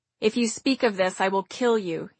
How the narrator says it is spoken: he said

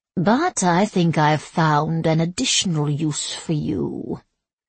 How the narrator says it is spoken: Bianca purred

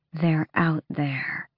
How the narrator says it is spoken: Asterin murmured so the others might not hear

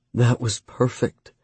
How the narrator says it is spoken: she breathed

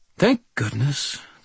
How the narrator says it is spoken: the judge said in a dry tone

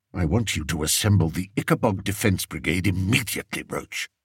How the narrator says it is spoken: Spittleworth told the Major in a low voice

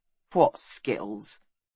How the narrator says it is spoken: He asked bitterly

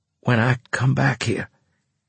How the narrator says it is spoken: I rasped

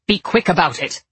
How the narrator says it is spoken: Father barked

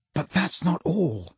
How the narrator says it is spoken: said Harry in a voice only a little above a whisper

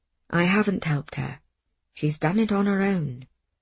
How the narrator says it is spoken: Miss Smith said, very softly

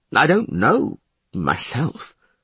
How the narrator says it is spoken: the glove maker mumbled

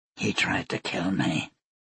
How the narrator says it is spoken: Yaret said quietly

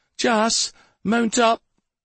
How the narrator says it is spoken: Jaspan started shouting

